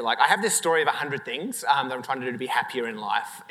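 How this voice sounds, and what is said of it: Non-local foreign accent. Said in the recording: “I'm not from here, as you can probably tell from my accent.”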